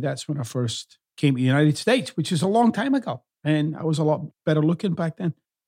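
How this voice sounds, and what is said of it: Half Scottish, half American accent. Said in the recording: “the best in half Scottish, half American accents”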